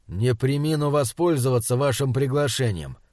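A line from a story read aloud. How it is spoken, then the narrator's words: Grumbling. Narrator (Russian): пробурчал Бирюков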